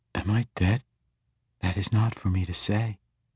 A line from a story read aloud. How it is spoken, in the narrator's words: answered calmly